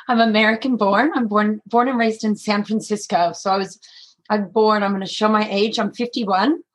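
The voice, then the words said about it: Strained voice, American accent underneath. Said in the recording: “my voice is a little bad at the moment, too much lecturing, but there's actually an American accent underneath”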